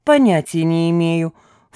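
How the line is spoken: Snorting. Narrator (Russian): фыркнула Лида Поклонная

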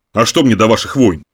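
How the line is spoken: Scornful snort. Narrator (Russian): фыркнул он

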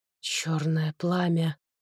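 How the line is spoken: Whisper. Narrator (Russian): прошептал он

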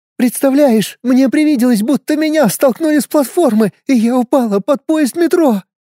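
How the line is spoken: Sobbing. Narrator (Russian): Она рыдала

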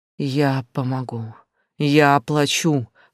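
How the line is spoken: Whispering. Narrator (Russian): шептал

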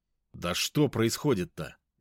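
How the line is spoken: Slightly irritated question. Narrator (Russian): немного раздраженно спросил я

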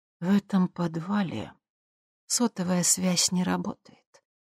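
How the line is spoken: Quiet. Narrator (Russian): тихо сказала она

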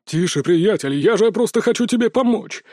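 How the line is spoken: Indignant exclamation. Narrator (Russian): возмущенно воскликнул стиратель

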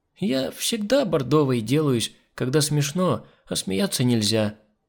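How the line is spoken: Sleepy explanation. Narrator (Russian): сонно пояснила Миранда

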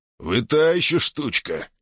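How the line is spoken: Chuckling. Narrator (Russian): хохотнул Джакс

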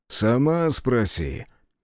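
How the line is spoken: Chuckling. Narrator (Russian): хохотнул он

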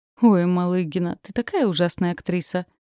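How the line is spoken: Good-natured laughing. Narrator (Russian): Он смеялся беззлобно

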